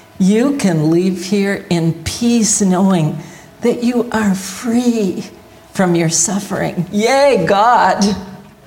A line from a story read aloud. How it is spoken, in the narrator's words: he said warmly